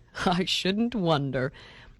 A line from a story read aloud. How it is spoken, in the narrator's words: laughed Mr